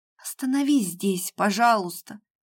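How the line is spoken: Tearful whisper. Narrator (Russian): прошептала девушка, борясь со слезами

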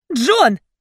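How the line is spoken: Near shout. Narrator (Russian): Чуть ли не крикнула я

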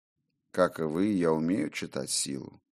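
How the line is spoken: Sad, smiling. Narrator (Russian): грустно улыбнулся тот

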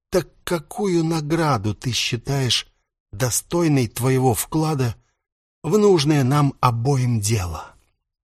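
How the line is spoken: Sighing question. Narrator (Russian): Нак показательно вздохнул и спросил

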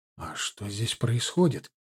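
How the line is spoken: Whispered question. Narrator (Russian): шепотом спросил я

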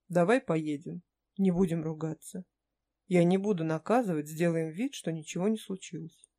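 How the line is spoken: Said gently. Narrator (Russian): сказал мягко

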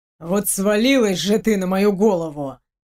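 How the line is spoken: Grumbling without malice. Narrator (Russian): Проворчал, но как-то беззлобно

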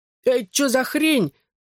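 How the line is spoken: Pained howl. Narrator (Russian): взвыл, складываясь от удара

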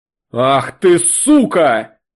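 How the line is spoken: Roaring. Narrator (Russian): взревел он

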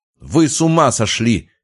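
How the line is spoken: Shout. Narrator (Russian): крикнул он

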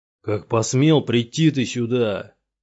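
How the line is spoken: Thundering divine voice. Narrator (Russian): прогремел голос бога

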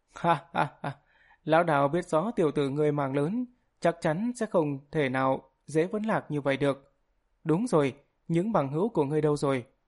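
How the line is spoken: Loud laughing. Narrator (Vietnamese): Hoàng Ngưu đạo nhân cười lớn nói

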